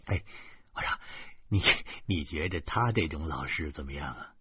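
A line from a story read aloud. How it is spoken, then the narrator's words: Chuckling. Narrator (Chinese): 呵呵呵的笑着说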